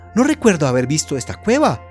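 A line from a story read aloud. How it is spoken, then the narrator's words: Young man exclaiming. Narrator (Spanish): exclamó el joven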